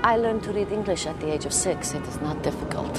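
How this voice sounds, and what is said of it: Actress's put-on Russian accent. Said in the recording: “It was kind of hard to buy the Russian accent, but I thought she did a great job.”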